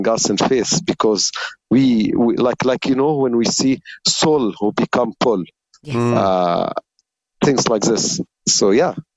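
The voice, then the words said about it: Egyptian-accented English. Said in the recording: “we love your accent, brother. We love your English. ... English is amazing. ... our official Egyptian contact person”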